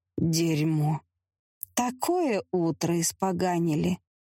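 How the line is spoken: Through gritted teeth. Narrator (Russian): процедила сквозь зубы госпожа Эмилия Грим

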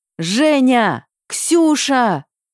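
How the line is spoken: Shouting at full volume. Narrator (Russian): Орали по очереди, что было мочи

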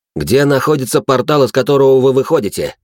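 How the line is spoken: Barely controlled, furious questioning. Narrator (Russian): Уже практически потеряв над собой контроль, спрашивал я

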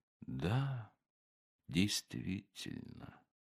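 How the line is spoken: Barely audible, dreamy. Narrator (Russian): один из гостей, слушая и уносясь мыслями куда-то очень-очень далеко, сказал едва слышно

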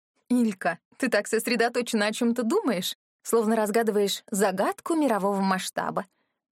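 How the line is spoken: Chuckling. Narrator (Russian): хохотнула Мияра

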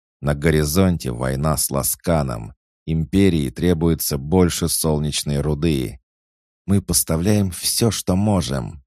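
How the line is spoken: Through clenched teeth. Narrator (Russian): процедила сквозь сжатые зубы Элейн

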